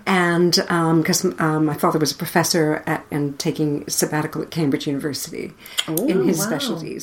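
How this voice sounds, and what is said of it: Noticeable non-native accent. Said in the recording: “you've got an accent, haven't you?”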